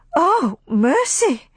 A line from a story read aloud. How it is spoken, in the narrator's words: cried Aunt Pity